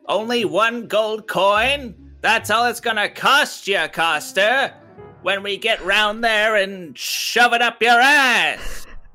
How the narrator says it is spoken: I yell

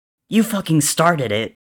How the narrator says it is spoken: Tommy shouts back

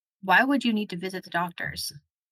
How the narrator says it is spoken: I asked

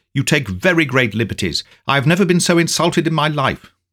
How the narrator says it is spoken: I cried angrily

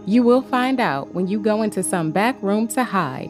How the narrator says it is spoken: Micaiah replied

